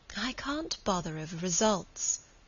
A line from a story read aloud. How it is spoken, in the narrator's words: said Margaret, a little sadly